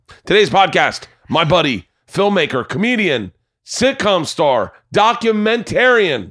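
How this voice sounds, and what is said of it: Yelling, energetic announcer delivery. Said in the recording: “Why are you yelling? ... I just trying to give it more energy.”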